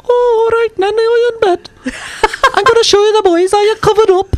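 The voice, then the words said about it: Exaggerated strong Welsh accent. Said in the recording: “Her first instinct was to speak Welsh to you ... And your accent got stronger. ... Oh, yeah. So much stronger.”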